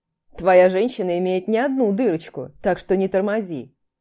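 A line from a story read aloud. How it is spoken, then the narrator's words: Deep bass voice. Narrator (Russian): пробасил Давид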